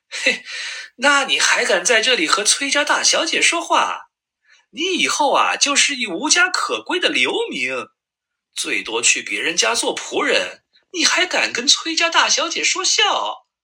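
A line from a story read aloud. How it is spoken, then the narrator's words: Angry scolding. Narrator (Chinese): 崔和眼睛一瞪，正要骂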